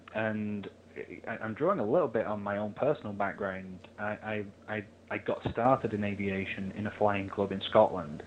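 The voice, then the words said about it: English accent. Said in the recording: “you can probably tell the English accent here”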